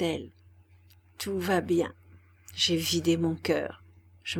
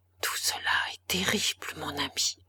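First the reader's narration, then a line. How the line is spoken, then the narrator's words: Murmur. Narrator (French): murmura-t-elle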